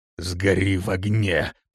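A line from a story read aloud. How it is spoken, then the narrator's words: Hissing. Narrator (Russian): прошипел Рок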